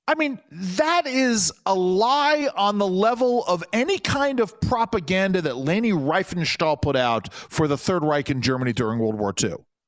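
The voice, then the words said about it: Loud angry yelling. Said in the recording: “I'm yelling into the microphone. I've got to moderate my voice, my anger here.”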